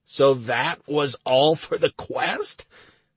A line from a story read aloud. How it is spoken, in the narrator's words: I almost choked from outrage